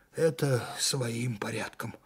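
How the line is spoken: Tired. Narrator (Russian): устало сказал майор

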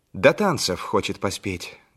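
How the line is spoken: Plain. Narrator (Russian): говорит Толя

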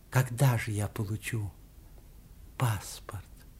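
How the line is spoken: Quiet question. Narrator (Russian): тихо спросила

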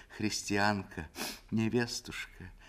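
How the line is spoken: Sobbing. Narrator (Russian): она всхлипнула

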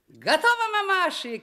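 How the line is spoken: Wizard shouting. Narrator (Russian): кричал им оглохшим от высоты волшебник Вася

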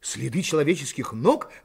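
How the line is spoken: Exclamation. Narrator (Russian): воскликнул Пенкроф

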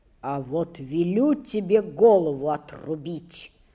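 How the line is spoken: Boy's muffled voice. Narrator (Russian): проговорил мальчик глуховатым голосом

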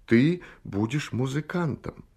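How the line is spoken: Heartfelt, gentle voice. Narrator (Russian): Он сказал проникновенным и ласковым голосом

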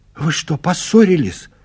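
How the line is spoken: Frightened old woman asking. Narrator (Russian): испуганно спрашивает старушка

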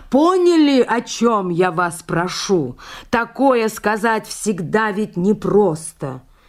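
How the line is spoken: Very loud. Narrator (Russian): сказал очень громко

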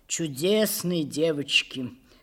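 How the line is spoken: Said with a sigh. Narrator (Russian): сказал он, вздохнув

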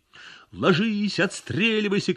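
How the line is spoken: Shouting from cover. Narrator (Russian): кричал из-за бетонных колонн Ионов

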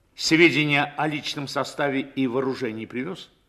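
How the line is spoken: Loud question. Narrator (Russian): громко спросил командир

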